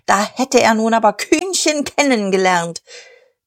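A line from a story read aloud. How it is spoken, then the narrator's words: Shouted. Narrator (German): schrie er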